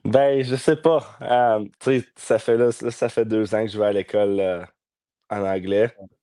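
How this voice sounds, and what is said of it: Slight English-speaker accent in French. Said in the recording (French): “Tu as quand même un petit accent anglophone, là.”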